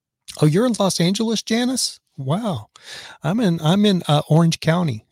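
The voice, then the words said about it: Raspy voice. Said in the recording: “I was literally hacking and coughing and then got the hiccup ... that's probably why I sound raspy.”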